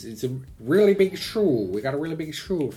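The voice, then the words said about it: Ed Sullivan impression. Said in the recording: “Where was he from that made his accent that way?”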